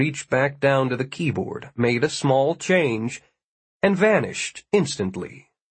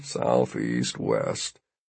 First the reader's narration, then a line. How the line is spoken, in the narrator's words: mumbling